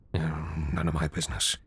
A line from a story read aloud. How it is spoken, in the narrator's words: he muttered to himself